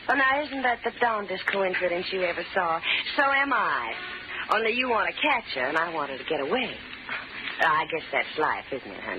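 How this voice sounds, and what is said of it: Woman with a southern accent. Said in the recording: “a southern accent”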